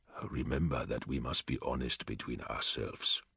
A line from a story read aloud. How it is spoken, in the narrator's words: Vulcan murmured